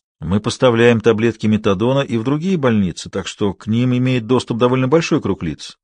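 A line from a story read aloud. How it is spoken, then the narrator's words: Plain. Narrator (Russian): сказал Нюбок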